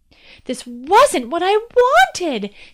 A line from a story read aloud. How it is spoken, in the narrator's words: cried out the window to the wide world below